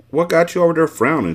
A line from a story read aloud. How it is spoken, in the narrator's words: Shiva asked